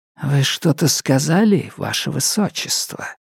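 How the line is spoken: Whisper. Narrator (Russian): шепнул Итейн

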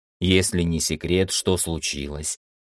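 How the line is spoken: Soft, informal, concerned inquiry. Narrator (Russian): Мягко, не по-уставному, поинтересовался Виктор, увидев нешуточное беспокойство в ауре подчиненного

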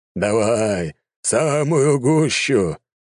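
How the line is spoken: Emperor's laughing chuckle. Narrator (Russian): хохотнул император

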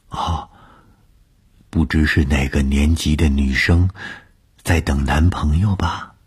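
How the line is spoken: Low voice. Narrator (Chinese): 她低声地说

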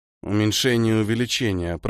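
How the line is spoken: Mumbled. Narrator (Russian): пробормотал Ниэль

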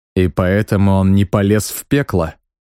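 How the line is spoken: Snorting remark. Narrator (Russian): хмыкнул я

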